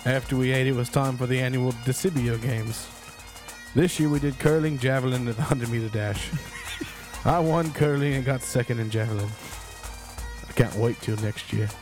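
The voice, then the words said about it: Put-on Scottish accent. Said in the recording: “you did really well on your accent, though ... That was good ... It's not bad at all ... Very Scottish”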